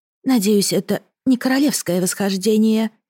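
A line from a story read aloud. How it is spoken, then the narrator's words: Quiet. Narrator (Russian): негромко произнесла она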